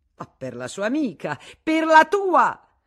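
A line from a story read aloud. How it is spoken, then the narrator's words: Shouting, standing up. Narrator (Italian): gridò Madame Arnoux alzandosi in piedi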